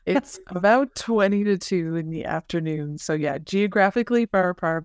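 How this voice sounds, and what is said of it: Slight regional Canadian accent. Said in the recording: “a little bit of your accent ... It makes us Canada seem a little bit more exotic”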